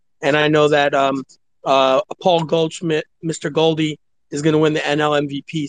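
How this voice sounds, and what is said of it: New York-sounding accent. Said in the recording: “Where is that accent from? Are you a Mets, Nets, Jets person?”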